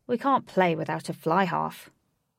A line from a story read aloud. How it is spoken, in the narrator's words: John Greaves sighed and said